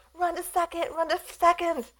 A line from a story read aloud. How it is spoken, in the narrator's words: Everyone yelled